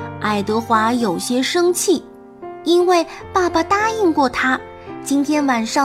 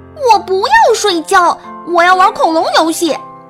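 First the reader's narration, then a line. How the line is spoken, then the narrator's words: Disappointed loud cry. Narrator (Chinese): 爱德华失望的大声叫起来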